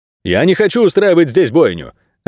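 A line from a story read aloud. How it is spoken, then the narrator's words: Curt shout. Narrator (Russian): отрывисто крикнул Анти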